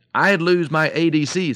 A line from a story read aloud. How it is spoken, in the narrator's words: said the goose